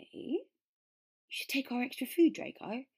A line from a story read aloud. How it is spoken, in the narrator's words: Vince said eagerly